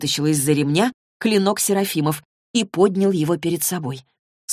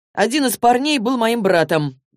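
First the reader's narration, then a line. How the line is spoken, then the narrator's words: Flat, colorless voice. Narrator (Russian): бесцветным голосом произнес Рафаэль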